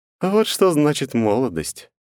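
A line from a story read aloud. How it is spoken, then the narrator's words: Wry snort. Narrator (Russian): Я хмыкнул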